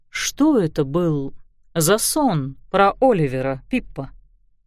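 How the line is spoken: Soft question. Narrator (Russian): Мягко спросил сэр Роланд

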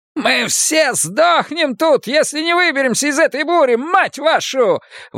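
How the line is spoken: Yelling. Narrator (Russian): вопит Селен

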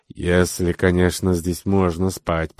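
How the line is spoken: Grumbling in a bad mood. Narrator (Russian): проворчал Бруно, бывший, как всегда, в неважном настроении

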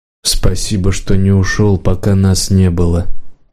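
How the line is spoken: Quiet. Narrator (Russian): тихо сказал хозяин

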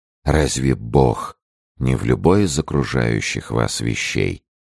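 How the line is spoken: Reproachful whisper. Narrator (Russian): прошептал Арамис тоном упрека

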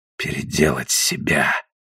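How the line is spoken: Muffled mutter. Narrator (Russian): пробормотал он глухо

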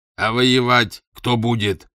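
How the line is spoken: Angry reply. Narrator (Russian): сердито ответил Дезессар

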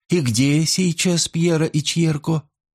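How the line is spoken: Sigh. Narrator (Russian): Джованни вздохнул

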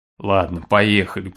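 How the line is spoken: Grumbling. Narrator (Russian): проворчал Синицын

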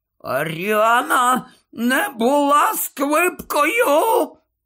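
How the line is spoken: Hoarse wheezing. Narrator (Ukrainian): хрипів Додж

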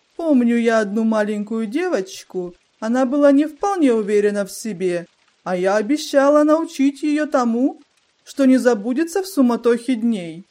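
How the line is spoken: Laughing. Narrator (Russian): Мисс Тик засмеялась и добавила

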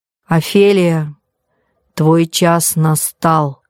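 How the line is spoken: Deep resonant voice. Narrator (Russian): глубоким звучным голосом произнес председательствующий

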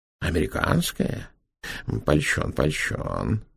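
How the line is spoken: Mutter. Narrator (Russian): пробормотал Петр Иванович

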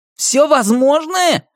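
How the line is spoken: Man barking angrily. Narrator (Russian): рявкнул Эйгю

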